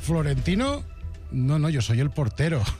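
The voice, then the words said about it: Strange mixed Andalusian-Canarian accent. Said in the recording (Catalan): “fingint un estrany accent entre andalús i canari”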